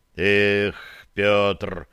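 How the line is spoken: Sigh. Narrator (Russian): вздохнул я

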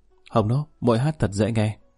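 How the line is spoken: Smiling. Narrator (Vietnamese): mỉm cười hướng Quý Hồng Nô nói

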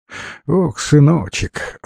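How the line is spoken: Sighing old woman. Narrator (Russian): вздохнула старушка

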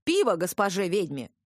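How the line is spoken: Bellowed. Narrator (Russian): заорал Колот

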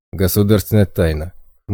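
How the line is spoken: Smirking snort. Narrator (Russian): хмыкнул первый охранник

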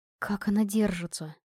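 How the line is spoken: Worried woman's whisper. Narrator (Russian): обеспокоенный шепот одной из арчанок

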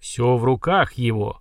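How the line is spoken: Solemn proclamation. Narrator (Russian): Столь же торжественно, как и раньше, провозгласил скоморох

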